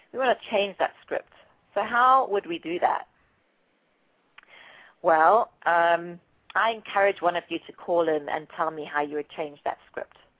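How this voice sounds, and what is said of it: Slightly raspy, strained voice. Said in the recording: “my throat's getting a little raspy”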